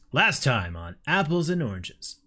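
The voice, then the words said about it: Announcer voice. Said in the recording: “Announcer voice.”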